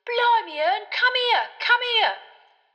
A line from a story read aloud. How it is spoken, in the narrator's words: Stan shouted